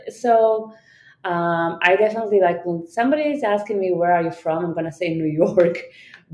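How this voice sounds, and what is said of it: Israeli-accented English. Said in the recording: “I do not have like the New York accent ... Oh, you're from Israel ... most people will not accept that answer because of my accent”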